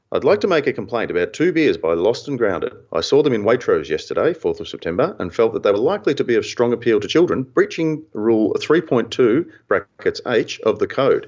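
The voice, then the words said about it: Put-on English accent. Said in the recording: “my flog voice here in an English accent.”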